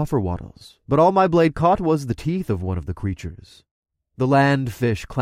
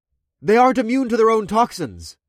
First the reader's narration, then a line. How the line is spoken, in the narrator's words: I called out to my friends